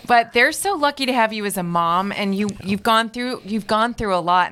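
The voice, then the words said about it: Choked-up, emotional voice. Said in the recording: “I'm getting all choked up.”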